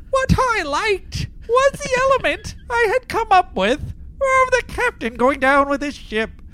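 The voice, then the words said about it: Imitates another person's voice. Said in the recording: “let me do a Morgan Grendel voice ... More of a character than a... accent. ... No discernible accent there.”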